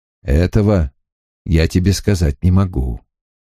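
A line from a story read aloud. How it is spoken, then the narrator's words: Gentle. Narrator (Russian): ласково ответил он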